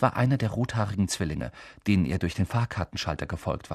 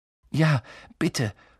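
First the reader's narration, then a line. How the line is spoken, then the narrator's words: Gasping. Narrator (German): keuchte Harry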